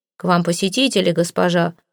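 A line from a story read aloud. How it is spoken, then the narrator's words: Deep bass voice. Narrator (Russian): пробасил Громила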